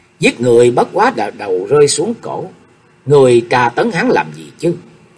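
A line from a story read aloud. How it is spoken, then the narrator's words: Angry cursing. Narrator (Vietnamese): Chu Cao Hú giận dữ mắng chửi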